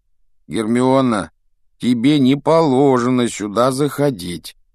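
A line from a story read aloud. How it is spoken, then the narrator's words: Grumbling. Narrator (Russian): проворчал Рон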